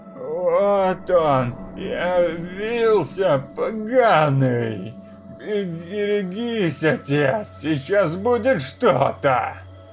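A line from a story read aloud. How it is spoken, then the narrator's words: Old man's parched hiss. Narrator (Russian): Прошипел дед пересохшими от жара губами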